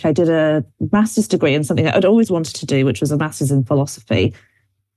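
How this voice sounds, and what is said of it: British accent. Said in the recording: “you can probably tell from my accent, I'm from the UK originally”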